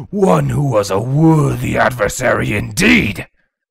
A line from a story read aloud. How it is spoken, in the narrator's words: Nyadogger bellowed